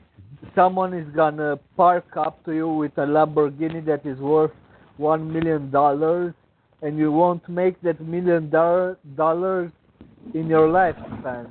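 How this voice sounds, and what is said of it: Speaks with an accent. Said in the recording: “I'm sorry for my accent.”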